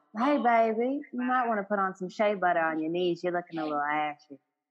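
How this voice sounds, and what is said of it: Southern Texas twang accent. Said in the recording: “I'm saying that in a, a southern accent ... My Texas twang will come out”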